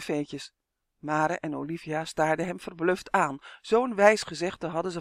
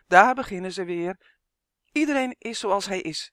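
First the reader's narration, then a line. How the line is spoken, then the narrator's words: Quick call. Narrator (Dutch): riep vlug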